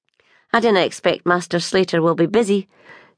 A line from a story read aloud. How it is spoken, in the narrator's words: she added dryly